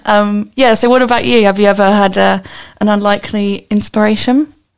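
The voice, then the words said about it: Hoarse, croaky early-morning voice. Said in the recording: “I'm losing my voice too... early morning voices”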